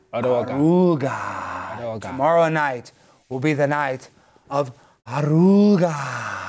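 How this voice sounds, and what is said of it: Put-on accent sounding Russian. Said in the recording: “Your accent sounds Russian, but we'll work on it.”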